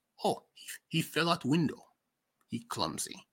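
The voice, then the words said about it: Poor put-on Russian accent. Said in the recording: “My Russian accent is terrible”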